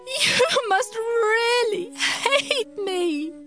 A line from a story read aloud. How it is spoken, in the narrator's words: she sobbed